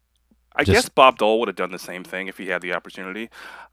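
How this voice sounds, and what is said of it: Sarcastic tone. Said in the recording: “That was sarcastic,... it was.”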